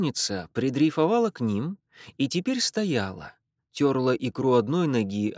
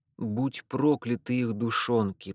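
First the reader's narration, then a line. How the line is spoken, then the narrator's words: Whispered while inhaling. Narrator (Russian): прошептала она, втягивая в себя воздух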